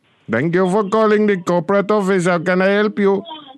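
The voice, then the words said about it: Silly put-on voice. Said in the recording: “Not fucking Indian, stupid. I was just doing a silly voice.”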